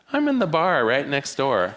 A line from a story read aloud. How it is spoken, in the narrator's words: her husband said cheerfully